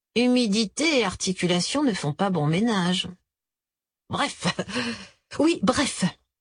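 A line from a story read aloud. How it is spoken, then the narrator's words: Exasperated sigh. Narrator (French): répéta-t-elle en poussant un petit soupir exaspéré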